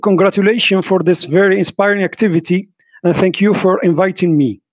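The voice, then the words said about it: Strong non-native English accent. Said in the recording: “my terrible English accent”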